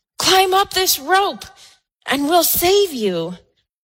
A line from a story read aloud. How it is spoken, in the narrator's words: the pilot shouts down